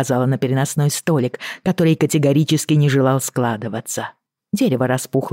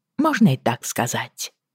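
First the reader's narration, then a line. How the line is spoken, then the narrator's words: Dry reply. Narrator (Russian): сухо откликнулась я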